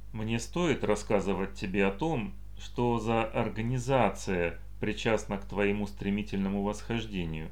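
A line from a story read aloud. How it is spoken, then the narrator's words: Plain. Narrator (Russian): спросил Айн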